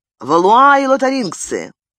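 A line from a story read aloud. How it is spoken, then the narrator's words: Shouted reply. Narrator (Russian): обратился Пардальян к Габриэлю и крикнул в ответ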